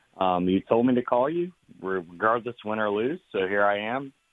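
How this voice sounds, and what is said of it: Hoarse, strained voice. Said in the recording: “sorry if my voice is, dude, I lost it Saturday ... I was screaming the whole time”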